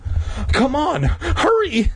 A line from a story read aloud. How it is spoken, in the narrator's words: Mindy pleaded